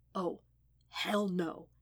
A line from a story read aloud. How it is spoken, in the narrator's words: he whispered